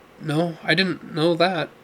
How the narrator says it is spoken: Neil replied, his voice tired but tinted with hope

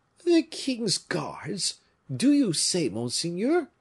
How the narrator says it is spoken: cried the Bretons, growing pale in turn

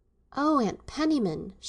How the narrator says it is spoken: she exclaimed faintly

